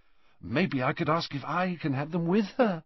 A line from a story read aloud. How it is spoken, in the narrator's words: said Ron eagerly